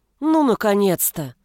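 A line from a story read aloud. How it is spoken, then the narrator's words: Grim rejoicing. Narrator (Russian): Мрачно возрадовалась я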